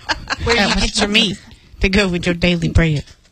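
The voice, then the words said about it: Rural hick-sounding accent. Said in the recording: “I sound like a hick.”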